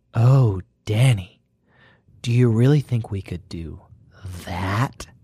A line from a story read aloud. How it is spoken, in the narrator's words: Her voice was very breathy